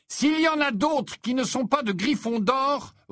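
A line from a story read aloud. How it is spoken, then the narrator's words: Angry roar. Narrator (French): rugit Harry qui commençait à s'énerver sérieusement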